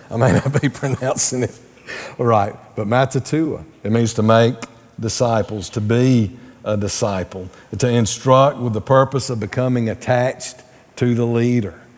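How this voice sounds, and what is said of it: Southern American accent. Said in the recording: “that's hard to say with a southern accent”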